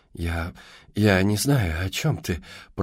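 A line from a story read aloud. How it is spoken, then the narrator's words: Stuttering mumble. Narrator (Russian): пробормотала она, заикаясь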